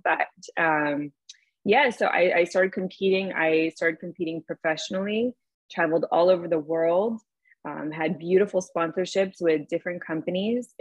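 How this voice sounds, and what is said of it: Hoarse, fading voice. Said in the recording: “I'm like losing my voice all of a sudden ... I had like a really bad cold last week ... little tiny things lingering still”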